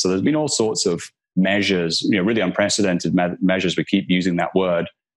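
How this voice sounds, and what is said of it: Scottish accent. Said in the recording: “I can tell from your accent that you're not from New York ... I'm from Scotland”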